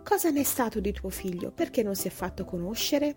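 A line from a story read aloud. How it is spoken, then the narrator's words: Exclaimed. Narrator (Italian): questa esclamò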